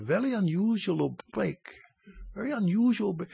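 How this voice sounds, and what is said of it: Put-on Southeast Asian accent. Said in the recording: “with a Southeast Asian accent”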